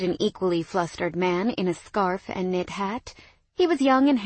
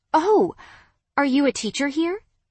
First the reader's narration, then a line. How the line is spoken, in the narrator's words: I asked eagerly